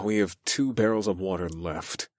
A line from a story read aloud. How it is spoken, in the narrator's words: I sighed